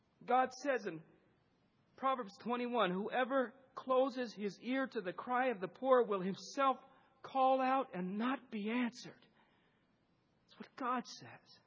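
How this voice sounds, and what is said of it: Choked-up, emotional voice. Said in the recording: “I'm getting choked up. I always do.”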